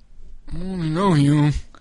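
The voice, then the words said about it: Mumbled, mush-mouthed imitated character voice. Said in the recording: “Mumbling ... mush mouth ... his Rocky Balboa impression ... he's doing an impression of mush mouth from the Fat Albert”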